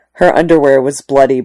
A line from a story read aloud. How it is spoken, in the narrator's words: Bree said